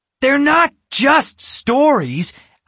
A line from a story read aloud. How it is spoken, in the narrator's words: Alex exclaimed